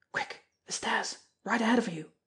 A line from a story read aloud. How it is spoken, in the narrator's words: he whispered